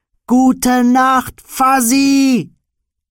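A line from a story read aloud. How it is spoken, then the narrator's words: Grown boy shouting repeatedly. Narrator (German): Er schrie es und schrie es, der erwachsene Junge, dessen Geschrei einstmals Legende gewesen war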